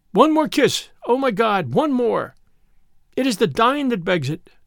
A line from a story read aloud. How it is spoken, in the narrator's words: she cried